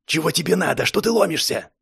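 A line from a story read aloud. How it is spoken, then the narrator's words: Glum loud whisper. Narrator (Russian): Голос был не сильно веселый, к тому же все это он говорил громким шепотом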